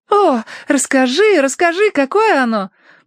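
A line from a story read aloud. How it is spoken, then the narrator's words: Eager exclamation. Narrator (Russian): воскликнула Цинни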